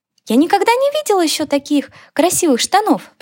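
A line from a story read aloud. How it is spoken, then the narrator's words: Squeaky. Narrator (Russian): пропищала мышка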